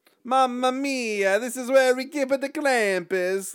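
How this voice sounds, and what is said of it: Put-on Italian accent. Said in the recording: “he should be Italian ... you forgot your accent”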